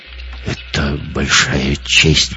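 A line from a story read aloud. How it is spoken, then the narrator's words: Muttering. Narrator (Russian): пробормотал Гитлер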